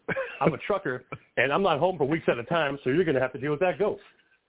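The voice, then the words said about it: Deep fey Southern Georgia man voice. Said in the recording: “sounds like a fey southern man from Georgia... My voice is way too deep to even try to go for a higher register”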